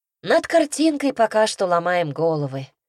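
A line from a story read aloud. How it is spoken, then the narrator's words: Sigh. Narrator (Russian): вздохнула Ася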